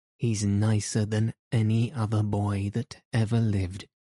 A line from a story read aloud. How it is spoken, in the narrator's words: she said